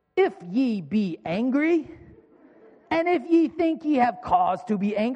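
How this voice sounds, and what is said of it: Put-on British accent. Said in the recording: “that's my British accent, it's the best I got.”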